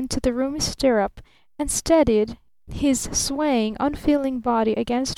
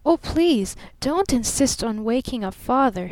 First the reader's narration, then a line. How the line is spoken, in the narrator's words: she begged